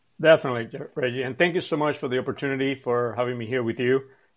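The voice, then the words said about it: Cuban Spanish accent. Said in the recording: “I'm originally from Cuba. That's where you hear this accent from.”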